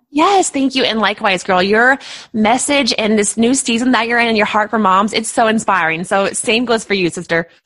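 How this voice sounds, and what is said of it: Speaks with a noticeable accent. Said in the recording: “I love your accent, by the way. I'm living for it.”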